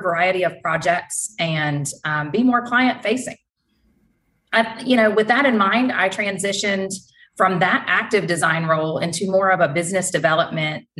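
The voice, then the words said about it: North Carolina Southern accent. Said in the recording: “I am based in North Carolina, in case you haven't quite yet been able to pinpoint my accent”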